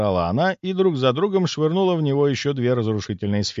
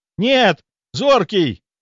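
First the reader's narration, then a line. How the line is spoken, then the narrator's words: Anguished yell. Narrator (Russian): заорал я, увидев, как сферы попадают в тело моего друга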